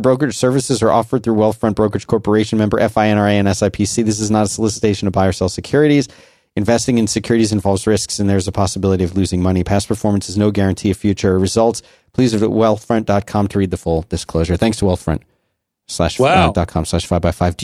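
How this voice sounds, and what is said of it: Very fast, monotone disclaimer reading. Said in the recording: “read in a kind of hilariously fast and monotone disclaimer reading voice”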